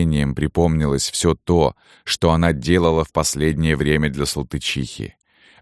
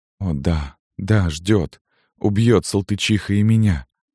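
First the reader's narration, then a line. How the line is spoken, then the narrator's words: Moan. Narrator (Russian): простонала девушка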